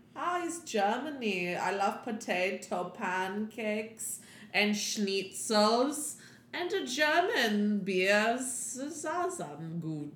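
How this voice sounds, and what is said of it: Put-on German accent. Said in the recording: “That's a great German accent.”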